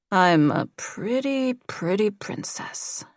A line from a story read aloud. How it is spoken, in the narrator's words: mumbled